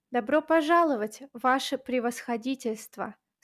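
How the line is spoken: Plain. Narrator (Russian): сказала она

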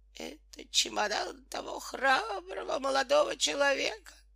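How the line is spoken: Moaning. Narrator (Russian): простонал он

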